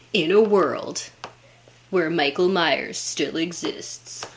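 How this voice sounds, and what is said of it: Movie trailer announcer voice. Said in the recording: “I was trying to do, like, the movie announcer voice.”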